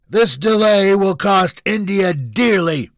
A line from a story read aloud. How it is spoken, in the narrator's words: Junior bellowed